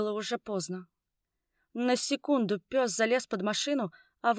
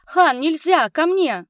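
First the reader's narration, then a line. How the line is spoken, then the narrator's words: Shout. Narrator (Russian): крикнула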